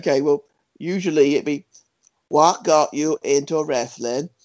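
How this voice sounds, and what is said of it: Bad impression of Mags' voice. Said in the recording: “do it in Mags' voice ... that accent ... it's terrible”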